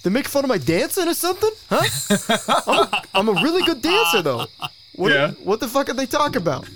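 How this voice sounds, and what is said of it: Put-on Brooklyn accent. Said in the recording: “in a Brooklyn accent or something ... I know I'm still talking the accent”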